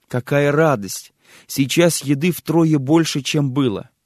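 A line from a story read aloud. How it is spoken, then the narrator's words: Joyful exclamation. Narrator (Russian): Она воскликнула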